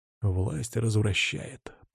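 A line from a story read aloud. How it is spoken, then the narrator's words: Whispered. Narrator (Russian): прошептал я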